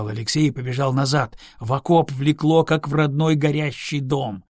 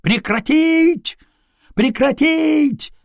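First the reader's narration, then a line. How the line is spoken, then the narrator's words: Shouting while running. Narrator (Russian): На бегу закричал Алексей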